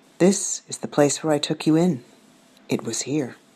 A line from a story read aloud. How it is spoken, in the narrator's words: Johuri steps into our tent and whispers